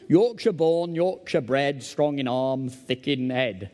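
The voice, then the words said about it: Posh man's fake Yorkshire accent. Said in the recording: “a very posh man in London put his arm around me and say, Yorkshire born, put on a sort of fake accent”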